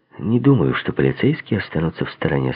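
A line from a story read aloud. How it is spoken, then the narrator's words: Plain. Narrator (Russian): сказал я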